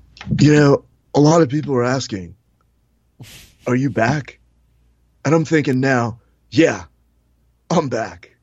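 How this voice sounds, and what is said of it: Imitates another person's voice. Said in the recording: “I just wanted to do the Keanu voice. I can't promise you I won't slip into it”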